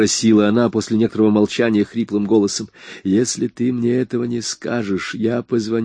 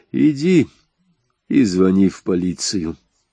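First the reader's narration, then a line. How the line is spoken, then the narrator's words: Calm. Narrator (Russian): спокойно сказал я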